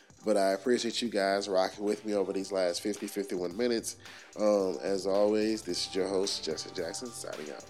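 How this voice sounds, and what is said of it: Nasal, congested voice. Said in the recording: “My apologies on the voice. I'm a little sick this week... my voice is a little nasally because I'm a little sick”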